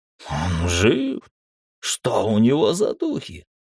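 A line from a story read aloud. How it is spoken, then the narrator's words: Whimpering. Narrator (Russian): хныкал Носатый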